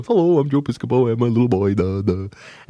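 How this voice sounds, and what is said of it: Goofy doofus voice. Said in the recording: “do a Joe Piscopo impression ... I'm, like, this big doofus guy that walks around and goes”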